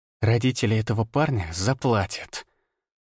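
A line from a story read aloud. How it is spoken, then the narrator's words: Hissing. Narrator (Russian): прошипела Виола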